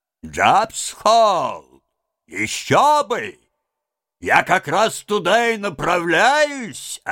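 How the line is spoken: Plain. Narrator (Russian): ответила хозяйка баржи

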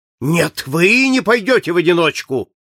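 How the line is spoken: Moved, excited exclamation. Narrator (Russian): воскликнул с волнением, тронутый благородством Фогга комендант

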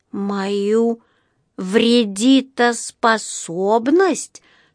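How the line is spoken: Upset drawl. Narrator (Russian): с огорченным видом протянул Паддингтон

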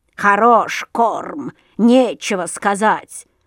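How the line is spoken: Crow grumbling. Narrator (Russian): заворчала ворона

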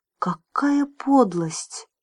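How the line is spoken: Forced out. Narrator (Russian): выдавил он

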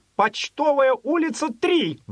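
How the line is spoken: Sudden exasperated shout. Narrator (Russian): Вдруг в сердцах крикнул аптекарь

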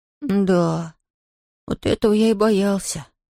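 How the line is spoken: Sighing mumble. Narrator (Russian): вздохнув, пробормотал Том

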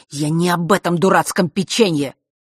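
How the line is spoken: Hissing into ear. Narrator (Russian): прошипел он ей в ухо

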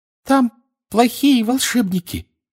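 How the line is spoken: Flustered squeak. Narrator (Russian): в смятении пищала она

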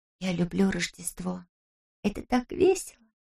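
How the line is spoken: Whisper. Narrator (Russian): прошептала мне Анна

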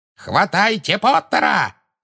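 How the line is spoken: Shrieking. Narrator (Russian): завизжала Беллатриса

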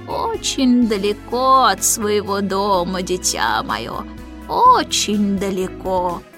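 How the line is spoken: Creaky old voice. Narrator (Russian): проскрипел прадедушка

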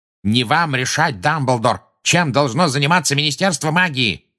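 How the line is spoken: Furious bark. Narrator (Russian): рявкнул Фадж, теперь уже пурпурный

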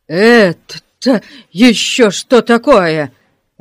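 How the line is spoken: Barking roar. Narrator (Russian): рявкнул он

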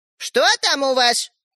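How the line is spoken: Grandmother shouting. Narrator (Russian): крикнула бабушка

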